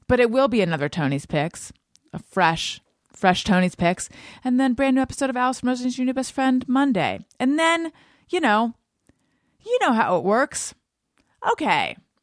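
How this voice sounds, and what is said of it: Emotional voice, catch in throat. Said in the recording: “Felt a little catch in my throat. I think I'm getting emotional”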